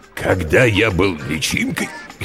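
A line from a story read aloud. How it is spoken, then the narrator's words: Hoarse beginning. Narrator (Russian): Хрипло начал родитель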